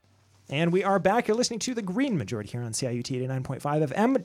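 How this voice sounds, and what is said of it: Very fast speech, imitates another person's voice. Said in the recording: “my best Amy Goodman impression here right now, speaking very quickly”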